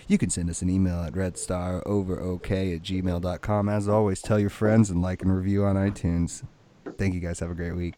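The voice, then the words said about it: Sensual, sweet radio voice. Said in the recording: “my new sensual radio voice, talking real sweet to you, chocolate in your ears”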